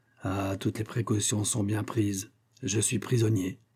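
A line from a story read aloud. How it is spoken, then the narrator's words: Growling. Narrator (French): gronda Olivier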